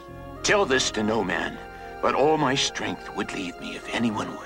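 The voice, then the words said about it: Whispering. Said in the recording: “What did he whisper?”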